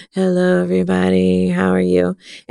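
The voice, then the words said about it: Tired, low-energy flat delivery. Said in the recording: “feeling really tired and kind of like, Ugh”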